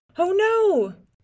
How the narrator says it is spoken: the chief shouted

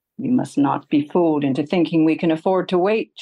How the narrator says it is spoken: Shoulda snaps

